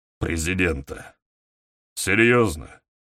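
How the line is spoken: Tired questioning. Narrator (Russian): устало переспросил Фрунзе

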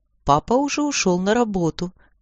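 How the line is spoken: Plain. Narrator (Russian): ответила мать

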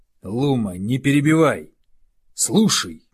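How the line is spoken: Fierce growl, old wolf. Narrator (Russian): Рыкнул старый волк так, что волчата прижали уши к голове

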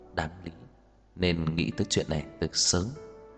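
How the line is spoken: Quietly. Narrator (Vietnamese): Lương Đậu Khấu liền nhỏ giọng

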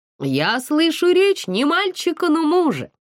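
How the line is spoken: Laughing. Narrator (Russian): засмеялась Сашка

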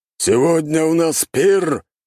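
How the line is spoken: Loud proclamation. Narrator (Russian): громко произнес вождь

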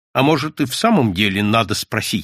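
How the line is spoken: Dry, curt. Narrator (Russian): сухо сказал молчавший до того Львов

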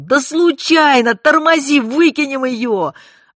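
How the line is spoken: Yelling. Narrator (Russian): Белобрысый, отбиваясь от вопящей женщины, орал

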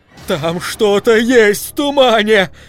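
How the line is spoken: Shouted. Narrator (Russian): закричал он

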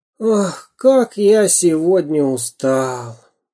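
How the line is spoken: Sighing. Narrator (Russian): вздохнул карандаш

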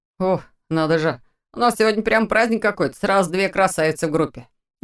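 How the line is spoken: Teasing young man, friendly. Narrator (Russian): Насмешливо, но не обидно прокомментировал молодой парень

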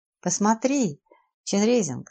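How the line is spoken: Plain. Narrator (Russian): сказал

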